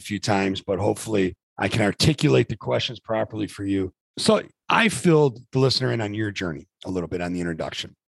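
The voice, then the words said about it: Rough, strained hoarse voice. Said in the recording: “forgive the voice. This is my basketball coaching voice ... It's a little rough this morning ... I might have raised my voice”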